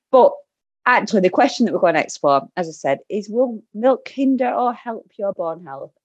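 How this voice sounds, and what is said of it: Broad Lancashire accent. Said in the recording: “my broad Lancashire accent”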